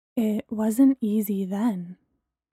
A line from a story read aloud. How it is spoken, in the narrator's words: Bree said quietly